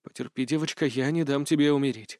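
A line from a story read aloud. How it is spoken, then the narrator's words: Whispered. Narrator (Russian): шепнул я ей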